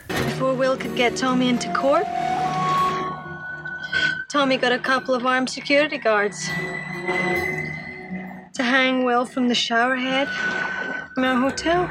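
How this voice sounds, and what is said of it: Strong accent. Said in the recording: “her accent came out so strong there.”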